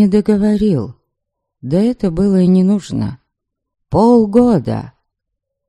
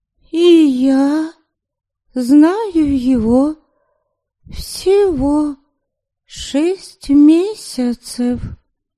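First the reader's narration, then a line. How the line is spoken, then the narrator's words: Slow drawl. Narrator (Russian): медленно протянула Ами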